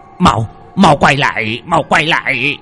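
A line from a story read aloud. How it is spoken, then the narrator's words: Desperate shout. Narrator (Vietnamese): Mò lững thấy chạy cũng không thoát được, lão ta hét lên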